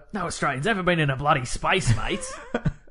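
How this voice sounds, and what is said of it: Exaggerated Ocker Outback Australian accent. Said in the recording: “my regular accent and my Ocker Outback Australian accent”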